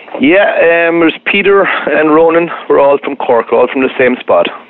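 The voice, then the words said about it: Irish accent. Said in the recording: “Obvious from your accent, you ain't from around here, as we like to say in Texas. So are you a native of Ireland?”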